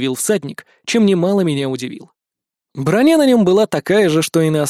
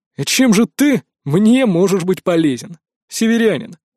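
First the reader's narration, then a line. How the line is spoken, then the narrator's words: King snorting. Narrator (Russian): хмыкнул король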